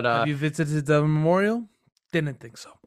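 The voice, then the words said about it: Imitates a film villain's accent. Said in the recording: “Zemo accent ... got the Zemo accent down”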